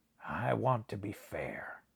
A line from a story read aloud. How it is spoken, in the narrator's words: he said quietly